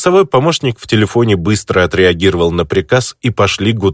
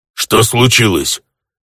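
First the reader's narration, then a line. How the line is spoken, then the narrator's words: Orc growling over phone. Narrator (Russian): рыкнул в трубку орк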